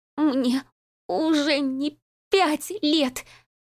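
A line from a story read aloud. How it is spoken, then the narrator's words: Young woman's sobbing shout. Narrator (Russian): выкрикнула девушка, захлебываясь рыданиями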